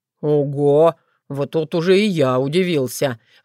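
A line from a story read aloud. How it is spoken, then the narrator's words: Breathed out. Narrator (Russian): выдохнул Крамиш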